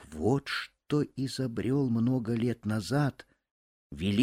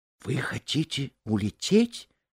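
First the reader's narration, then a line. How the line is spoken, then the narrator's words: Frightened question. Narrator (Russian): испуганно спросила Эта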